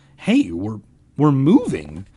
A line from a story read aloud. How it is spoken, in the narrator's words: Ben cried happily